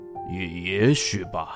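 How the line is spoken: Low voice. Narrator (Chinese): 爸爸低声地说

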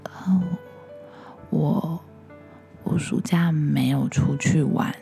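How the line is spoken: Shy, very quiet voice. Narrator (Chinese): 小新头低低的，一开始连一句话都说不出来，最后他才小小声的跟大家说

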